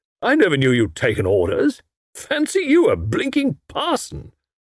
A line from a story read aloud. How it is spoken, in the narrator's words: Tuppence burst out laughing